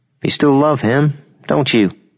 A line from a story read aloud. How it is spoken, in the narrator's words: smiled sadly up at him